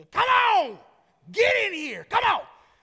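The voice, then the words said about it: Over-the-top screaming country dad voice. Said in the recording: “I felt very, like, country ... my over-the-top, like, flamboyant, screaming dad voice”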